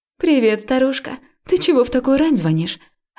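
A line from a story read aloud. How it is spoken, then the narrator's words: Cheerful. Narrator (Russian): радостно сказала она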